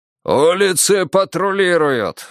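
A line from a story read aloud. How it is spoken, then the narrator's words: Roaring. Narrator (Russian): взревел Семёныч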